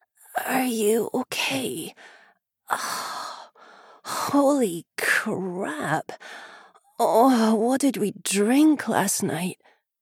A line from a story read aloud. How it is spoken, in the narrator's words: a loud groan, followed by a hoarse